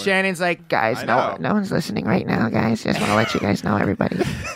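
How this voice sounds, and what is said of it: Good impression of a coworker. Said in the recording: “That's a really good impression.”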